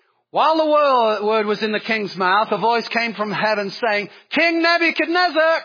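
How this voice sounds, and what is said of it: Usual voice. Nothing is said of it.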